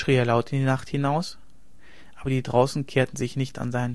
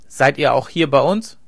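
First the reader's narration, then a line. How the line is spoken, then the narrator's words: Hard voice. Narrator (German): sprach er mit harter Stimme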